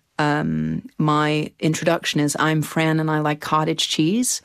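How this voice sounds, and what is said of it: Put-on American accent. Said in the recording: “You slip into the accent, the American accent, pretty quickly there.”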